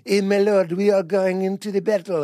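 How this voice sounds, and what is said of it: Put-on French accent. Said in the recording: “everyone's French in it”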